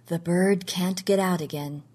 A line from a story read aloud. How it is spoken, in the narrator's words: he said softly